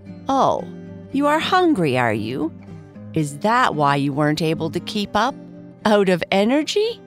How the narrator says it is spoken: Red said, laughing

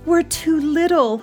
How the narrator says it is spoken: he moaned

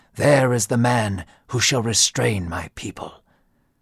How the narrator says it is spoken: God whispered to Samuel, saying

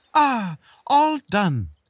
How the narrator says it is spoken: the beetle exclaimed

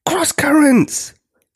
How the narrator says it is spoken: gasped Octavia, as she struggled to control the ship

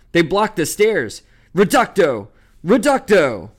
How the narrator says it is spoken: from below, and a voice shouted

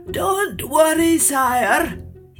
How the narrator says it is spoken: he croaked excitedly

